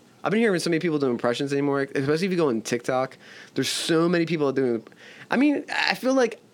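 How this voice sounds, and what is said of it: Usual voice. Nothing is said of it.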